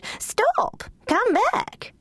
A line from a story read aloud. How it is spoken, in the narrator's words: the Duchess had cried